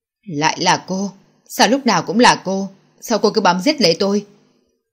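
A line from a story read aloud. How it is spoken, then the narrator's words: Loud angry shout. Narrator (Vietnamese): Minh Hoàng giận dữ quát to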